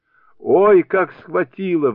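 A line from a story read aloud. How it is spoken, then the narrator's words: Wailing in pain. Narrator (Russian): вопил он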